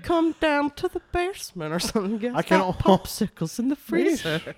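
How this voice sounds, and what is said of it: Old cartoon man's whistling voice. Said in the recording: “I think the best one is Old Man Herbert from Family Guy. That voice is the best. ... He's definitely got the whistle. ... tone ... perfect.”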